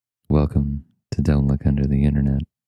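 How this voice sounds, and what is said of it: Soft, calm ASMR-style voice. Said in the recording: “You have a very nice ASMR voice.”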